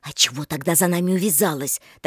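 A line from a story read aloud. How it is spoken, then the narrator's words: Hissing reply. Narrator (Russian): таким же шипением ответила и Рита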